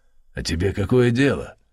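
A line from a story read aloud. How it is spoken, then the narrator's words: Rude interruption. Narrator (Russian): грубо оборвал старика архимандрит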